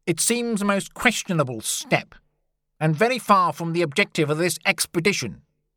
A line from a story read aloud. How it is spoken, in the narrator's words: he said crossly